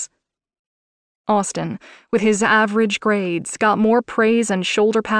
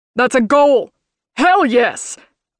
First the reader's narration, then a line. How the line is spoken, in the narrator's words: dad shouted from the other room